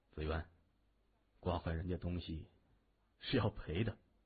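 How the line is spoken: Low voice. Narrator (Chinese): 谢文东低声说

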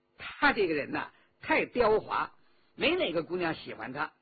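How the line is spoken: Laughing. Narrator (Chinese): 周启笑道

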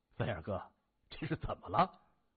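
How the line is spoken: Amused laughing question. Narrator (Chinese): 张岩江觉得好笑，他笑着问

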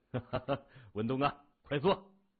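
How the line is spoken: Laughing. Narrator (Chinese): 袁华哈哈的笑了，说

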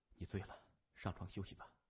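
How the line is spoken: Soft whisper in ear. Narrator (Chinese): 在他耳边轻轻地说

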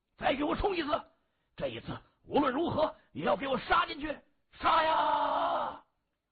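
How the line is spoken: Chorus battle cry. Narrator (Chinese): 龙堂兄弟齐声呐喊

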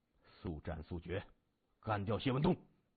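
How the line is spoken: Cold laughing. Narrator (Chinese): 段天阳 冷声笑着说

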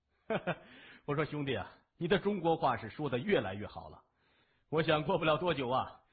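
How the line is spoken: Hearty laugh. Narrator (Chinese): 谢文东哈哈一笑说

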